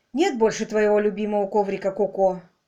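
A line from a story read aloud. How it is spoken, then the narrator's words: Tired. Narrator (Russian): устало произнес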